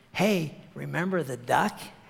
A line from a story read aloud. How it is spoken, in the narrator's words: She whispered again